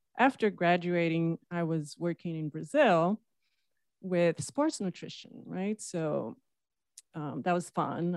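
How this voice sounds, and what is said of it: Brazilian accent. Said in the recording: “Is that the accent we're hearing? ... I'm from Brazil, from the coast side.”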